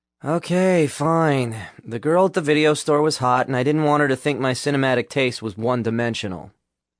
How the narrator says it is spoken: sighed

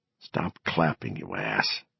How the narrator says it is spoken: Gardner whispered back

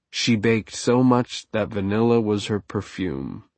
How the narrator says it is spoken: said

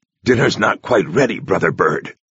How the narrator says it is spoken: he told it irritably

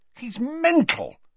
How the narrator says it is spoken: said furiously

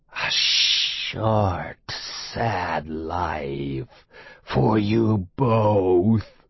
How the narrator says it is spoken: he hisses at Will and Jim

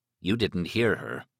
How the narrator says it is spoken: he said grimly

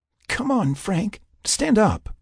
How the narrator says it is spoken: she begged him

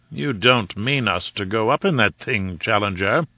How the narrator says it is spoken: said he, in an acid voice

